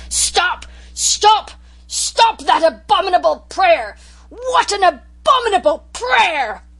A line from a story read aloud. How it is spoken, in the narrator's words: With a positive roar he shouted in tones of thunder